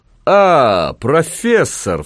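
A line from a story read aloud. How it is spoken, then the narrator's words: Exaggeratedly joyful exclamation. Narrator (Russian): вскричал он преувеличенно радостно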